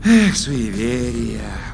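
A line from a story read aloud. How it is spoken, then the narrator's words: Contented sigh. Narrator (Russian): умиротворенно вздохнул Вур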